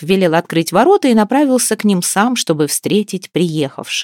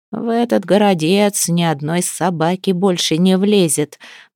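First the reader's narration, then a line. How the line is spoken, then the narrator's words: Muttering. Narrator (Russian): бормотал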